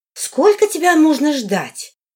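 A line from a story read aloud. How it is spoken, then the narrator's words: Capricious female exclamation. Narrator (Russian): капризно воскликнула она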